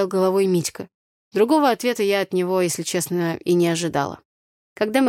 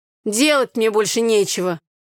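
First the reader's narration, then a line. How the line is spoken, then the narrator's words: Grumbling. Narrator (Russian): проворчал Митька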